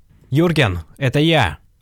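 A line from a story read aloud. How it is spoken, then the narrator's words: Yelled. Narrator (Russian): заорал я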